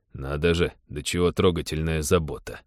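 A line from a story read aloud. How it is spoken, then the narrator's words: Ironic grumble. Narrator (Russian): иронично проворчал Тед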